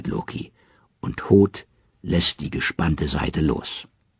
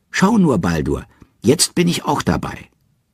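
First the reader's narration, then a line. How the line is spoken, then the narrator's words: Calling out. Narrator (German): Hoth ruft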